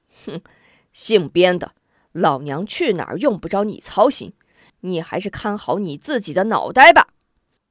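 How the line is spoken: Cold laugh. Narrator (Chinese): 康婆婆冷声笑道

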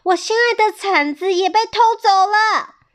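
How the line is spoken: Shouting while running. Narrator (Chinese): 兔子长耳也边跑边叫

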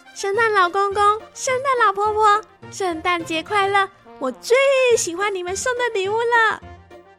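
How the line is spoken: Happy loud shout. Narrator (Chinese): 琪琪开心的对着窗外大喊着

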